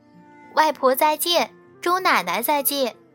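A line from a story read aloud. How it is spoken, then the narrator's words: Loud. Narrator (Chinese): 小乐大声地说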